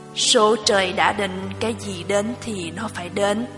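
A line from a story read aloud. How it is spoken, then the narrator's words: Sighing grandfather. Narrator (Vietnamese): Ông nội lắc đầu thở dài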